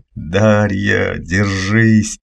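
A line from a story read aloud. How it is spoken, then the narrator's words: Yelling in strange voice. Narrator (Russian): заорал я не своим голосом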